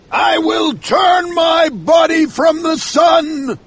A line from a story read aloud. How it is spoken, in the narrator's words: Ahab shouted